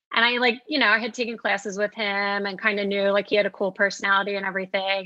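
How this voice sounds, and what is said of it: South Jersey accent. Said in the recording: “Are you from New Jersey or Philly? ... South Jersey, yeah. ... Oh, I can tell your accent.”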